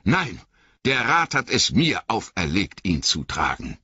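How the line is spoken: Calling out. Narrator (German): rief Frodo

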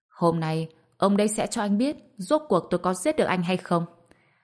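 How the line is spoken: Contemptuous laugh. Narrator (Vietnamese): A Vũ khinh thường bật cười một tiếng

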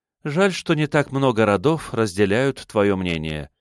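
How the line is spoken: Sighing. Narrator (Russian): вздохнула Романова

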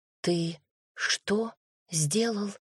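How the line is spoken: Barely audible whisper. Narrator (Russian): прошептала чуть слышно

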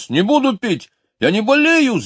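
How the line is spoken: Shouting. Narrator (Russian): закричал он

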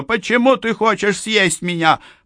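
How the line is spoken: Mouse screaming. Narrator (Russian): Мышка закричала

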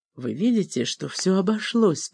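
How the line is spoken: Whispering. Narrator (Russian): прошептала

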